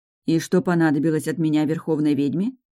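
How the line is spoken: Plain. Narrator (Russian): спросила я

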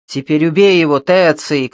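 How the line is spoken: Group shouting. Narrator (Russian): кричали они

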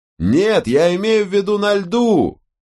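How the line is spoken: Shouted. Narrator (Russian): прокричал Ирвинг

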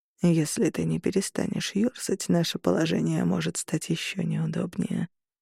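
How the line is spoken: Close, almost tender. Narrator (Russian): произнес он мне на ухо почти ласково

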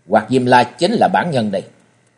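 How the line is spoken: Cold. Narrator (Vietnamese): Trần Lâm lạnh lùng nói

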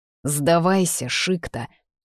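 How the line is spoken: Growled. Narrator (Russian): рыкнул Дролайс

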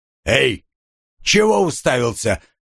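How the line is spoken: Growling burly guard. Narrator (Russian): рыкнул громила охранник

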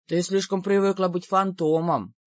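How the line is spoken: Grumbling. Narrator (Russian): проворчал Шейри

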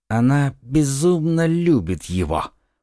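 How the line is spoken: Whisper. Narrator (Russian): прошептал он

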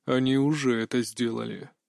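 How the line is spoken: Quiet. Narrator (Russian): тихо ответил владыка вампиров

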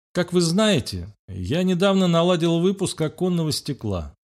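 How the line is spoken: Calm. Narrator (Russian): спокойно начал Мальцев

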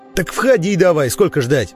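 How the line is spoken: Barking. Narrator (Russian): рявкнул в ответ Курьян

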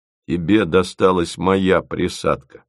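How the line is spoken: Gloomy. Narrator (Russian): мрачно сказал Фомин

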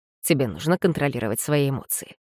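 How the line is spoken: Quiet voice. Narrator (Russian): проговорил он негромким голосом

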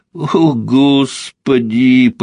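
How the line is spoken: Near moan. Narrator (Russian): почти простонала Ольга

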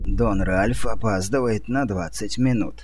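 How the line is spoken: Creaky voice. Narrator (Russian): скрипучим голосом проговорил Бенуцци

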